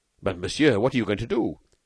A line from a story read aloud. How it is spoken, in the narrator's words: Devanne exclaimed anxiously